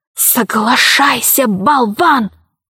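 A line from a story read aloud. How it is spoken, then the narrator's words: Hiss. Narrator (Russian): она зашипела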